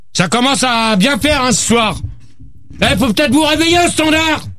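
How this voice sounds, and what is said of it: Shouting angrily. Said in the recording (French): “arrête de crier, toi!”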